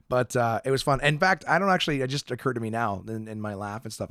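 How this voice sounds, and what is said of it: Slightly hoarse voice. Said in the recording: “my voice is a little hoarse. I actually blew out my voice.”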